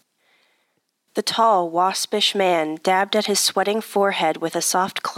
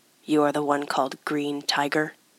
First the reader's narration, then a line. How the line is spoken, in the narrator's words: His voice was rough and uncultured